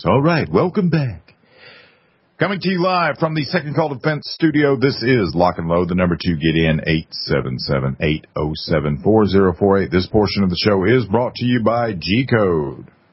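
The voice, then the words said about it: Full-on radio announcer voice. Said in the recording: “my full-on radio voice”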